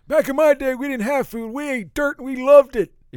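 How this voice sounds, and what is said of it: Mock old man voice. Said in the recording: “that's my old man impression”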